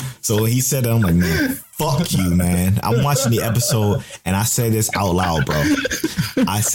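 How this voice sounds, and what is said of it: Usual voice. Nothing is said of it.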